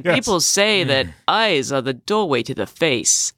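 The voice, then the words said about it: Imitates another person's voice. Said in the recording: “your Christopher Walken impression.”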